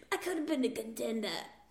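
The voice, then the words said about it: Marlon Brando impression. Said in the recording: “That was a really good Marlon Brando.”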